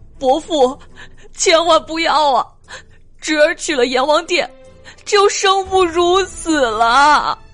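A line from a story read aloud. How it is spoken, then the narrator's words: Ghost wailing. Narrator (Chinese): 恶鬼来大哭道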